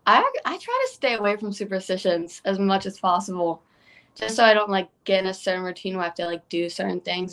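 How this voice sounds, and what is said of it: British accent. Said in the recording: “tremendous British accent”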